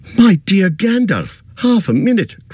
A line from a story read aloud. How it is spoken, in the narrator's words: cried Frodo